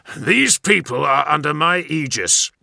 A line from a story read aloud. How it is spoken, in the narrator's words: barked the Death Guard